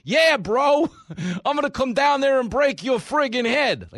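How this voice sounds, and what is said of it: Put-on Staten Island accent. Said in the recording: “that's how I picture you guys talking in my head. You're all women from Staten Island.”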